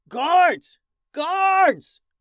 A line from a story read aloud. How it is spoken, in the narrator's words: The two blinded guards now yelled out for more guards